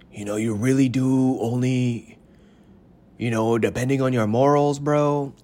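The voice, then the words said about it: Mock Mexican accent. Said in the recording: “I don't know why I'm sounding Mexican. ... the first accent that comes to your mind is a Mexican accent.”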